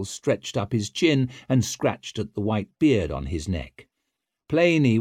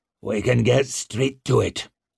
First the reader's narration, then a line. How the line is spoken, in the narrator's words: he growled